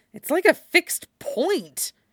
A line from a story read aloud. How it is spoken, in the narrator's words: Tam hisses back